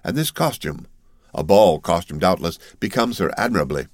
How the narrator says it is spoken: said the Count, in a perfectly calm tone

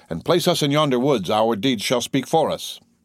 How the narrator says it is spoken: the young man haughtily replied

